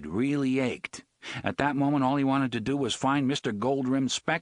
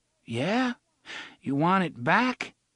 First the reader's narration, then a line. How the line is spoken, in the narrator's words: O'Meara had to speak slowly